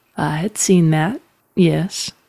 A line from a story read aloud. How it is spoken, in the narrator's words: said Telvin dryly